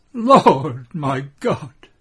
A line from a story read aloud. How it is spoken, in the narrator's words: she says with a sob that is joy and grief